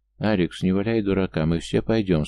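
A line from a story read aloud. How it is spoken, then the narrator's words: Calm, offhand. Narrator (Russian): спокойно поговорил Юл, как бы между делом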